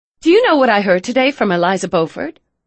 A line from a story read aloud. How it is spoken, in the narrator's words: Emma said brightly